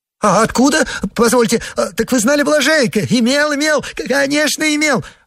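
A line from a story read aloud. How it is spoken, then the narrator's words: Joyful rapid chatter, laughing. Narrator (Russian): радостно затараторил Погоревших, хохоча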